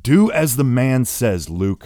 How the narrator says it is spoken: shouts the father

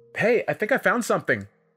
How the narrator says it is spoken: Melissa shouted from behind

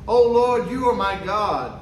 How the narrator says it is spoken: said

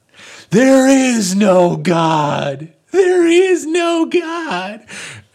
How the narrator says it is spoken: screaming

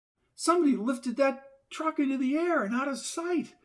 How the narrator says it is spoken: cried Diane

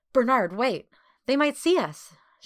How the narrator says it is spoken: she exclaimed

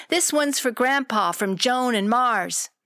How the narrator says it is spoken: Burton shouted

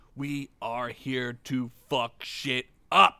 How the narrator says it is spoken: she said slowly

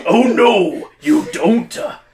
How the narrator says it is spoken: Harbold roars

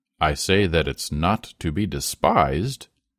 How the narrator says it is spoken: In a weighty tone he said

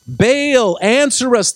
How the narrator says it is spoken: they shouted

